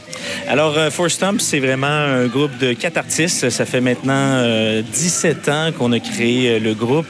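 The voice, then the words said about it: Québécois French accent. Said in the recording (French): “on est dépaysés avec votre accent”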